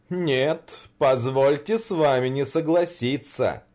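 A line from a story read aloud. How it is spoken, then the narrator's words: Laughing. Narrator (Russian): Санта-Клаус рассмеялся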